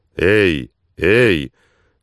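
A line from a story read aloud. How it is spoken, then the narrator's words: Booming bark. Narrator (Russian): зычно рявкнул Слик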